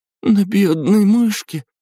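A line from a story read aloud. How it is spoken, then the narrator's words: Sobbing young woman. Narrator (Russian): девушка всхлипнула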